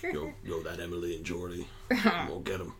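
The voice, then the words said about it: Intense Michael Jordan and Coach O hybrid. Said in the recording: “That was like a Coach O. Michael Jordan ... That was a weird hybrid ... Not your best impression work ... I was trying to do an intense voice. And I went to Coach O.”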